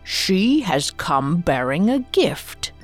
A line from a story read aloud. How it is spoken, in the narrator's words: the Emperor observed evenly